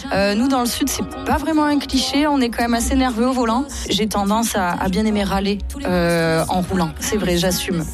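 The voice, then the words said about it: Southern French accent. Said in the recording (French): “je suis sudiste, je pense que ça s'entend mon petit accent”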